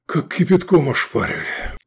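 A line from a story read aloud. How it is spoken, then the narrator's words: Breathless exclamation. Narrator (Russian): выдохнул Лобанов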